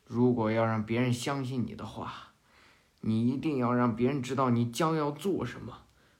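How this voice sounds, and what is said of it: Imitating Yin Zheng's way of speaking. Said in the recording (Chinese): “又开始模仿。...又装着这尹正说话呀”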